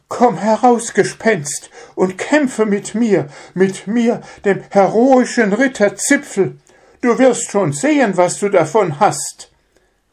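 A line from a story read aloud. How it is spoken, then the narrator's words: Trembling called out. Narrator (German): rief er mit zittriger Stimme, und eine Gänsehaut kroch über seinen Rücken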